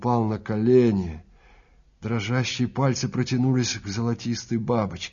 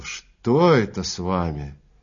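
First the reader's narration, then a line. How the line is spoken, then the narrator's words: Moan. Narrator (Russian): Экельс застонал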